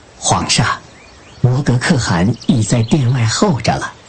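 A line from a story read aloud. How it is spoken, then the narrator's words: Soft voice. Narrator (Chinese): 李常在侧轻声说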